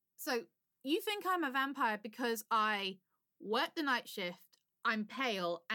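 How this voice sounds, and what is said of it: English accent, London. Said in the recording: “Yes, I have an English accent. I'm from England. London, to be precise.”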